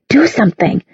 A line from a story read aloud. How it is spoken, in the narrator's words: she hissed at him under her breath